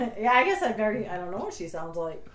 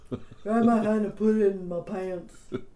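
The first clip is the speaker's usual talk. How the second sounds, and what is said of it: Impression of a cartoon character's voice. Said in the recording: “She sounds like Connie from Brickleberry. ... That's a good impression”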